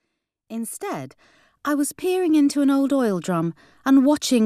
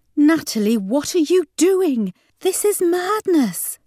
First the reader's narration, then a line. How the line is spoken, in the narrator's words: cried